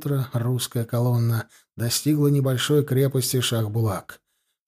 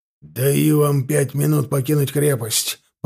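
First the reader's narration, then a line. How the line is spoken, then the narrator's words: Hoarse rasp. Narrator (Russian): прохрипел ультиматум полковник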